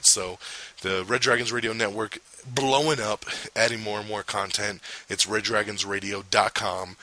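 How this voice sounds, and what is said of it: Strained, nearly lost voice. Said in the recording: “I about lost my voice.”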